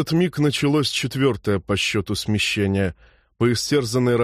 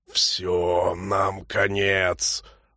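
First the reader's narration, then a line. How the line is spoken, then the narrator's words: Strangled wheeze. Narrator (Russian): сдавленно просипел Норл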